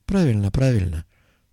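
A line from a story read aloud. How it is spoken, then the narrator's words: Tired confirmation. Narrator (Russian): устало подтвердил Коперник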